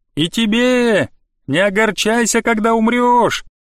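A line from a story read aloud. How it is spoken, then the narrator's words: Shouted while running. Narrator (Russian): прокричала она на бегу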